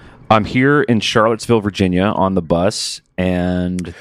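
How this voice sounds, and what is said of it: Usual voice. Nothing is said of it.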